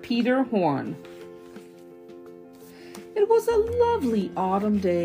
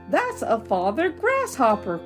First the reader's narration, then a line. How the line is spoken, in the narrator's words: cried Sebastian